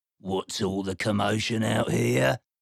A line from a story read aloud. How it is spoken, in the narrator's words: Tasmanian Devil, grumbling